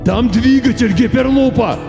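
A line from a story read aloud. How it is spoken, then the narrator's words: Shouted. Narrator (Russian): крикнул мистер Пирсин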